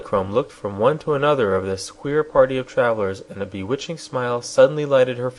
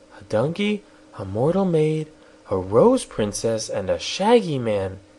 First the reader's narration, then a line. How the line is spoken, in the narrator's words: she exclaimed